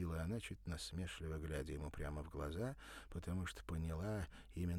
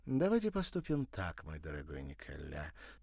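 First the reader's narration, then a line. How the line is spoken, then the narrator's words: Coaxing, softening a refusal. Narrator (Russian): начала она вкрадчиво, чтобы смягчить отказ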